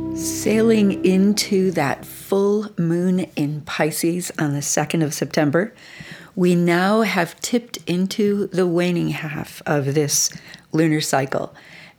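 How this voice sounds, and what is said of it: Slightly rough, hoarse voice. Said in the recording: “my voice is a little rough tonight ... I might sound a little bit different tonight than usual”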